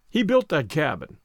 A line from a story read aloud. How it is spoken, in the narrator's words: Lon answered